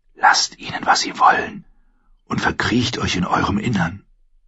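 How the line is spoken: Whispered. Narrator (German): wisperte er ihr zu

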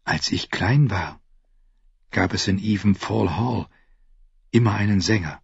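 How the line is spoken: Quiet telling. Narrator (German): erzählte Brienne leise

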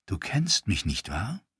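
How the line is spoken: Female whisper. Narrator (German): flüsterte sie

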